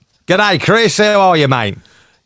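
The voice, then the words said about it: Put-on Australian accent. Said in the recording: “the Australian accent”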